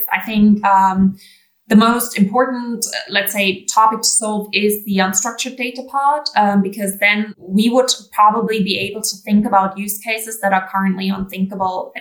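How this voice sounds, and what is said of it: German speaker, mixed American-British English accent. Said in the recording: “I know that German is your first language, but your English accent is phenomenal ... it's like this combination between American and British”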